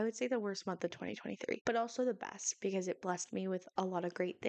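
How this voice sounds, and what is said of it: Usual voice. Nothing is said of it.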